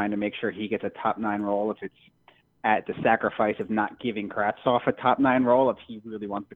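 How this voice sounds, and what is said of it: Usual voice. Nothing is said of it.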